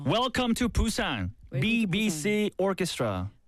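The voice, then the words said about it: Exaggerated strong Korean Busan accent. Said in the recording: “With the Korean, very, very strong Korean accent. ... Pretty Busan accent.”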